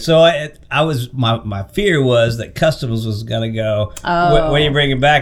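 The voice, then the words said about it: Voice sounds a little off. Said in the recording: “my voice is a little off”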